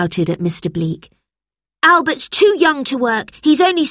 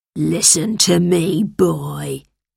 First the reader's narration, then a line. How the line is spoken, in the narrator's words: growled